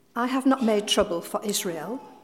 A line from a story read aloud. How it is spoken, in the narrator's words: Elijah replied